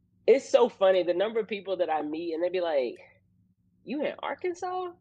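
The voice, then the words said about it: Slight Southern country accent. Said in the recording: “You're gonna hear a little bit of my country accent coming out.”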